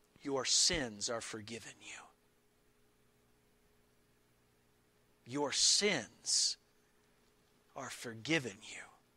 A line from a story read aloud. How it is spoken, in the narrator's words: He confidently and tenderly said to this poor, helpless paralytic